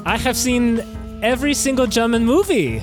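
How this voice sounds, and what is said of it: Put-on German accent. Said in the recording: “her interesting accent, she is actually from Germany.”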